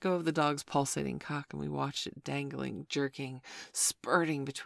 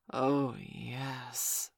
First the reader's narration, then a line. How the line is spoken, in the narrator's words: he hissed quietly